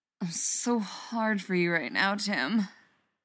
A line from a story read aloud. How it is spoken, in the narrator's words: groans